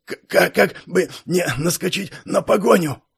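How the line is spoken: Breathless old man muttering. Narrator (Russian): пробормотал старик, восстанавливая дыхание

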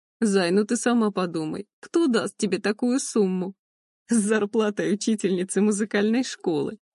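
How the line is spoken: Hoarse laugh. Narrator (Russian): Он хрипло рассмеялся

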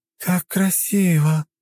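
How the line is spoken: Purring. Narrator (Russian): промурлыкала она

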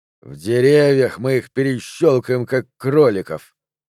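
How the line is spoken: Growling. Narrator (Russian): прорычал Сабетини

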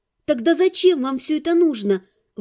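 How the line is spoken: Bewildered exclamation. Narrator (Russian): воскликнула, действительно недоумевая

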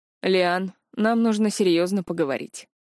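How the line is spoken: Grim father speaking. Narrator (Russian): мрачно произнес отец

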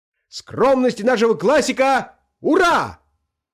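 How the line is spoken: Shouting again. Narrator (Russian): опять прокричал Ахламонов

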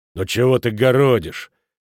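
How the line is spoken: Angry interruption. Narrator (Russian): сердито оборвал ее Футаки

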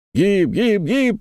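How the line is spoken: Crowd yelling. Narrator (Russian): орали делавшие ставки на победительницу Америку

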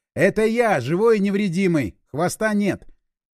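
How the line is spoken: Loud. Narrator (Russian): громко сказал

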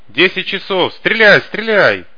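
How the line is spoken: Distant shout. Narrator (Russian): Кто-то далеко, метров 100, крикнул

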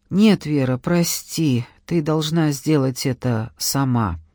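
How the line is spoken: Quiet. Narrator (Russian): он тихо сказал

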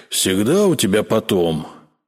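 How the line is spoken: Grumbling mutter. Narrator (Russian): пробурчал Сева

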